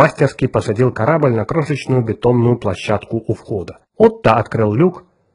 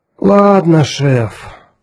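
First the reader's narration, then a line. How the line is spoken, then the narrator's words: Disappointed teenage drawl. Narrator (Russian): несколько разочарованно протянул подросток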